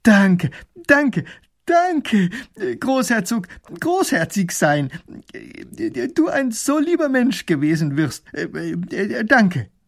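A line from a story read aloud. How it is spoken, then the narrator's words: Call. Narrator (German): Er ruft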